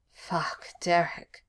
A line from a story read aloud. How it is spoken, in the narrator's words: Styles moaned as teeth that were far too sharp caught his nipple